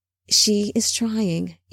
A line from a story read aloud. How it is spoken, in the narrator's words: Enoch said softly